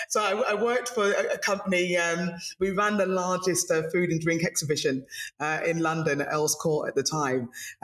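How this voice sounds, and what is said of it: British English accent. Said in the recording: “I'm from the UK, by the way, in case you haven't noticed from the accent.”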